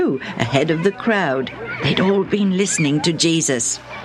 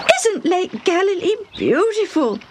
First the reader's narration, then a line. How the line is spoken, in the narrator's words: Debbie exclaimed